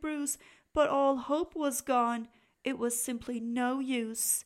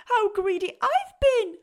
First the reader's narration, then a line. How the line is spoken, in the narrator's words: spluttered Bruce with a giggle